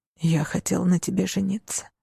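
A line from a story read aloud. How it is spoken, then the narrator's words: Whisper. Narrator (Russian): прошептал Альберт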